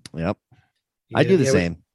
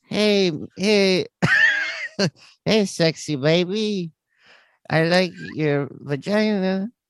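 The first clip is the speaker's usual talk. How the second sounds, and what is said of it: Put-on Spanish accent. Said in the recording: “my Spanish accent... with a Spanish accent”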